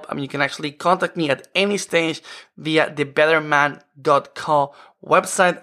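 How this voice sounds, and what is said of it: Speaks with a noticeable accent. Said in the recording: “you love my accent”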